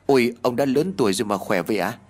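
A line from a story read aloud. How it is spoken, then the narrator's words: Nervous stammer. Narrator (Vietnamese): Mồ hôi túa ra ướt đẫm trán, anh lắp bắp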